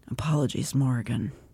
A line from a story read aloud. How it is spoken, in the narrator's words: Eris quietly says